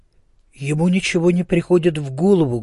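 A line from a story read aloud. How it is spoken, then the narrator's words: Sad. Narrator (Russian): грустно повторил Мартин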